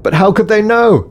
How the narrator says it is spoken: shouted Starling over the ever-increasing wind

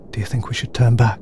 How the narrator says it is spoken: asked Starling quietly

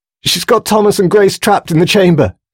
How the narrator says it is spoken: she blurted out desperately

